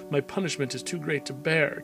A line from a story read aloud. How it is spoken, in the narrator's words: Cain cried out